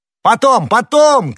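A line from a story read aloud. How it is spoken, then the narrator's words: Shouting. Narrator (Russian): крикнул ему Д'Артаньян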